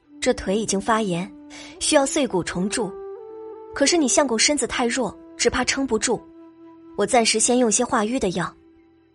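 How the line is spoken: Repeated sighs. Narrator (Chinese): 董小希连连叹息

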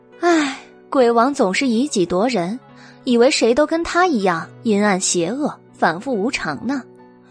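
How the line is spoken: Tutting sigh. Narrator (Chinese): 白姬啧啧叹道

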